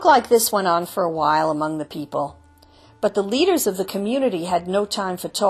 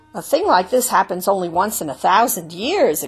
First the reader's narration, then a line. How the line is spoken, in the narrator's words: exclaimed a third